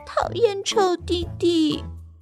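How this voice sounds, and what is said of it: Very small, quiet voice. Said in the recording (Chinese): “西蒙用很小、很小、很小的声音说”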